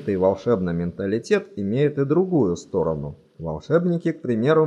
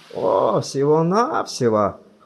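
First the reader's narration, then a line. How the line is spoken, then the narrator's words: Snorting. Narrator (Russian): хмыкнул он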